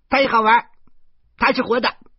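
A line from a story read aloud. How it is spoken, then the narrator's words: Clamoring loudly. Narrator (Chinese): 嚷嚷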